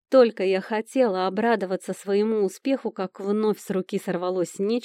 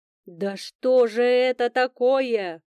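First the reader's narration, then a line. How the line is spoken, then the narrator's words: Menacing thunder from below. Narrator (Russian): прогремело снизу грозное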